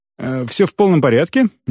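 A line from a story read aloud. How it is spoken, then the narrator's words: Somewhat nervous. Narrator (Russian): несколько нервным голосом ответил я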